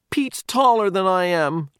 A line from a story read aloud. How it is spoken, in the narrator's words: Toby cried